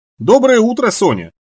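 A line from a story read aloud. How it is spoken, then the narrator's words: Cheerful. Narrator (Russian): весело сказала Кейтлин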